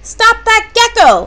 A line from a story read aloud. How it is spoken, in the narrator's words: yelled